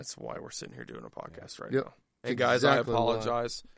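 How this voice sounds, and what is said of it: Hoarse, worn-out voice. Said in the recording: “my voice is shot.”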